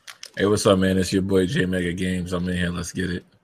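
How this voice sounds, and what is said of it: Sultry bedroom voice. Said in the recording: “put on his bedroom voice.”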